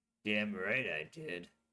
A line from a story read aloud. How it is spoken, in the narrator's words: General Gilbert muttered